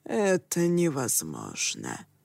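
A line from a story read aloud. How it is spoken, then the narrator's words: Flat, colorless objection. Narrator (Russian): бесцветным тоном возразил Дайтенгу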